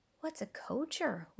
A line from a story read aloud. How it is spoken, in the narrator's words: whispered Tobin